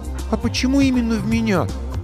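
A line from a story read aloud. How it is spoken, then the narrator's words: Offended question. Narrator (Russian): обиженно спросила Василиса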